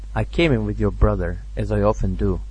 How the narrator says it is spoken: answered coldly in self-justification

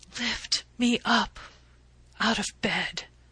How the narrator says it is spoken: she whispered

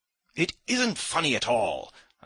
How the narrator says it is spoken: I cried to Ferfitchkin, more and more irritated

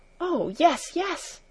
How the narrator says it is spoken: exclaimed Heidi, her face now rosy with delight

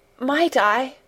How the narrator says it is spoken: quavered Mary

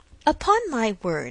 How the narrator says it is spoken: exclaimed Emma

